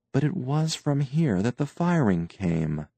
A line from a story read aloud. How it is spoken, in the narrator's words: Tance murmured